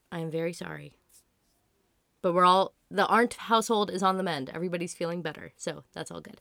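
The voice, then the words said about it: Strained, failing voice. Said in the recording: “please forgive my voice ... my voice was already, like, starting to give out”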